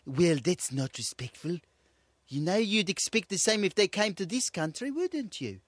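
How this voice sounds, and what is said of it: Put-on South African accent. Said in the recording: “it's in South Africa, mate. So it's a nice opportunity to talk like that, like a real South African ... I don't think I can even engage with that accent.”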